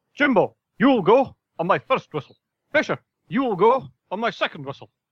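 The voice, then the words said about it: Imitates another person's voice. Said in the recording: “did an impression of John Anderson”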